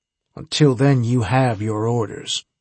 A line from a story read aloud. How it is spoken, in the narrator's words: Harbinger said coldly